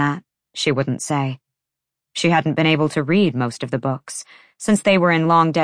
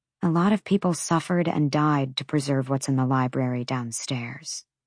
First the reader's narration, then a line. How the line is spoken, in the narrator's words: She added quietly